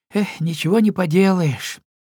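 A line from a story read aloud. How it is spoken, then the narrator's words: Disappointed sigh. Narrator (Russian): разочарованно вздохнул Пигги Твигги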